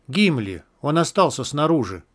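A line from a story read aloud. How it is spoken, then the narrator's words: Whispered. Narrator (Russian): прошептал Джет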